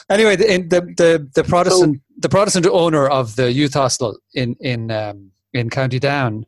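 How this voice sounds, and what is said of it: Northern Irish accent. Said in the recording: “my, my northern accent”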